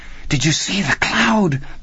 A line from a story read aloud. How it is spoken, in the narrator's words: Petey whispered